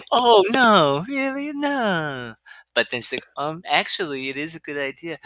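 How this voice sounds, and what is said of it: Weak impression of Shiv. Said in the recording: “Your Roman impression is definitely better than your Shiv impression.”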